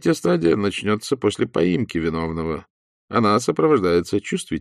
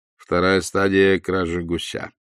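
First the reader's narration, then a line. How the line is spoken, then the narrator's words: Cold. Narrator (Russian): холодно заметил Остап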